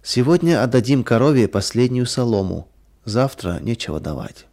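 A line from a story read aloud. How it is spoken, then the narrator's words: Sad. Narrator (Russian): Мария печально сказала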